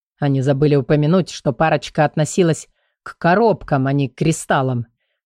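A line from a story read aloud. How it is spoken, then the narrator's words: Grumbling. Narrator (Russian): проворчал мужчина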